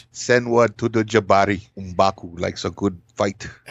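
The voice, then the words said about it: Imitating M'Baku's African accent. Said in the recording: “I fucked that accent up. ... I love that African tongue nonsense.”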